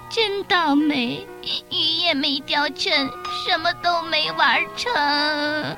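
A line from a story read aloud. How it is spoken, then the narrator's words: Crying. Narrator (Chinese): 小猫最先哭起来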